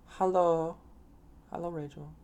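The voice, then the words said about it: Attempted German accent. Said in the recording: “Gotta work on my German accent, man.”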